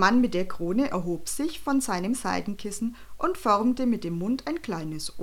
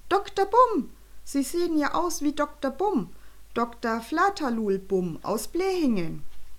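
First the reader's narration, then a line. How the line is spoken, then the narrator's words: Called out. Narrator (German): rief Jonathan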